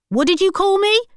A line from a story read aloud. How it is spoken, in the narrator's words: shouted the ticket man